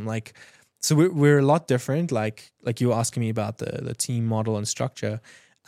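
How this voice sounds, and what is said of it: Speaks with a noticeable accent. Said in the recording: “my accent doesn't get me automatic sales ... He sounds smarter than he actually is ... don't trust accents”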